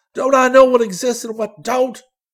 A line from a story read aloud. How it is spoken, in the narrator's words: He cried